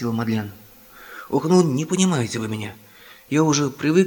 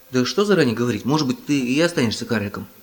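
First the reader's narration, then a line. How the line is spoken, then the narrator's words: Plain. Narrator (Russian): сказал Том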